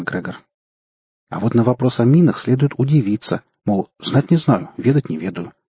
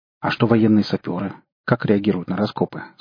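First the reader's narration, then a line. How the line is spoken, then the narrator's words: Plain. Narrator (Russian): спросил МакГрегор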